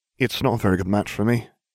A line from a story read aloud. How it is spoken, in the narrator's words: he mumbled